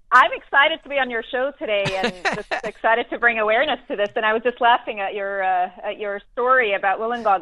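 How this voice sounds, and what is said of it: Mixed New Zealand and American accent. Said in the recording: “I'm a New Zealander myself ... You don't sound like a New Zealander ... I spent about 12 years in New York, so my accent's a little bit whacked now”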